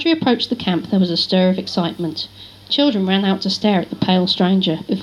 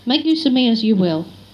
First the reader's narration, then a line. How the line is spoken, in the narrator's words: Rodri fought to keep his voice steady